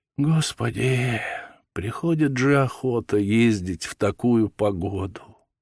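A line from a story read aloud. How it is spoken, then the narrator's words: Sighing, sexton's wife. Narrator (Russian): вздохнула дьячиха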